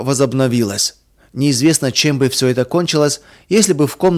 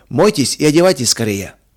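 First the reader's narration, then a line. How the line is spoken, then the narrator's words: Calm and loud. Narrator (Russian): сказал он спокойно и громко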